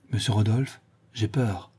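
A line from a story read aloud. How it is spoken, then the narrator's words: Frightened, trembling voice. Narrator (French): dit le Chourineur tout pâle et d'une voix tremblante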